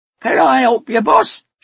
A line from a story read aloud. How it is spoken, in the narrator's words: she squeaked